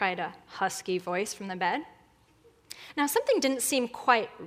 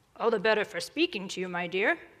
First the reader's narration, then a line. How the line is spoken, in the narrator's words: said grandmother